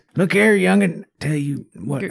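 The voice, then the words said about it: Put-on old man voice. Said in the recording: “old man voice”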